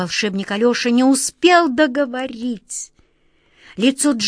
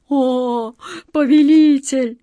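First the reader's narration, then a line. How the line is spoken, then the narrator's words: Pleading moan. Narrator (Russian): с мольбой простонал Джин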